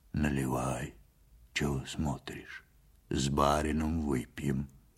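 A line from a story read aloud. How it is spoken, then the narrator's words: Muffled, husky voice. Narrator (Russian): сказал Ваньке глухим, с хрипотцой голосом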